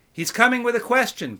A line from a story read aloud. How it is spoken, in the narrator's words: called out the burly young man, though Sharabi was sitting not 3 feet away from him